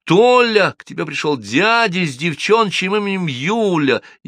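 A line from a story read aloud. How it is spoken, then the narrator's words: Girl shouting. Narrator (Russian): Девочка крикнула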